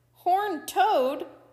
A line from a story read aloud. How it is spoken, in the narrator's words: Coyote pleaded